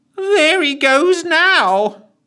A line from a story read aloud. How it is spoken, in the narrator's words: He wailed some more